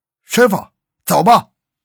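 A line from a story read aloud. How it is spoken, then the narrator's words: Loud call. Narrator (Chinese): 周建 高声喊道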